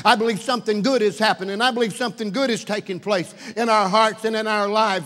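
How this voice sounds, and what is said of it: Raised, excited preaching voice. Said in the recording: “I raise my voice. Not in anger ... I'm raising my voice a little bit here tonight because I'm excited.”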